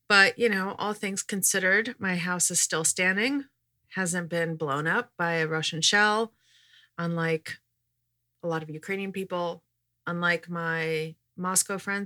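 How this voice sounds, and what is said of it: Voice sounds congested from a cold. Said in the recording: “fighting a bit of a cold, which you can probably hear in my voice.”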